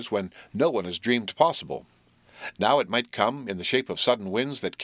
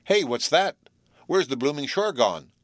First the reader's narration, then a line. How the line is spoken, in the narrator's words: suddenly exclaimed Bluff